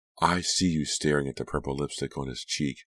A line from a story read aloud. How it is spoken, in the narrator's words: Delia cried